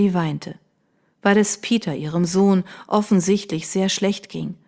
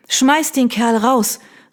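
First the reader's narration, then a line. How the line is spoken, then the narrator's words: Sudden innkeeper-like shout. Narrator (German): rief sie plötzlich ganz in ihrer Vergangenheit als Gastwirtin aufgehend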